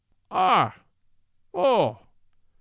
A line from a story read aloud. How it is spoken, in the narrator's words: cried in pure Irish